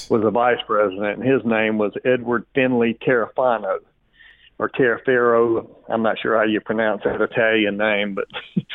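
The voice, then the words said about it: Southern American accent. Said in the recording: “I've got this southern accent, so it rolls off a little different”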